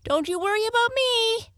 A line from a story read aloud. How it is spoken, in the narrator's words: Kitty Katydid called out